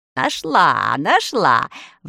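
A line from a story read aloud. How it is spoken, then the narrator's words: Sudden exclamation, sorceress. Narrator (Russian): воскликнула вдруг волшебница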